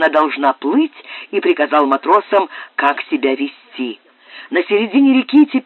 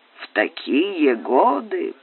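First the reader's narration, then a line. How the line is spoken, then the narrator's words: Grumbled. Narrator (Russian): пробурчал Пэдди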